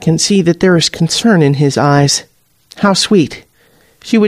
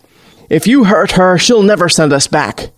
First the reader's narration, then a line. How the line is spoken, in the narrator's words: Rogers barks